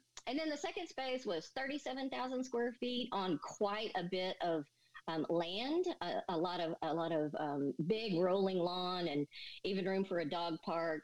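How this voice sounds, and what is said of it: Texan accent. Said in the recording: “here in Texas ... folks who will have trouble with my accent?”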